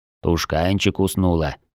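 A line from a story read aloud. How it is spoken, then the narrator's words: Whisper. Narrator (Russian): прошептал он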